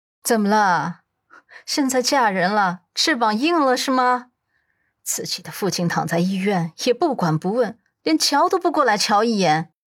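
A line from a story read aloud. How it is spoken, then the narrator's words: Complaining, resentful. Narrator (Chinese): 徐雅慧忍不住埋怨道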